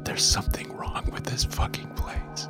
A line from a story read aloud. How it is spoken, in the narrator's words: I whispered